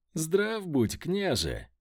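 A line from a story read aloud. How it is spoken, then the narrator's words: Joyful greeting. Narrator (Russian): Радостно поприветствовал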